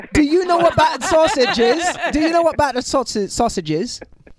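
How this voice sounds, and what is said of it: Put-on English Cockney accent. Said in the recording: “I was trying to do an English accent earlier ... I told him it was Cockney ... Oi, oi, governor. Yeah, no, that's very good. If I close my eyes, I'm home.”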